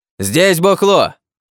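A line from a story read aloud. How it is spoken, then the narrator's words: Man yelling. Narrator (Russian): заорал мужик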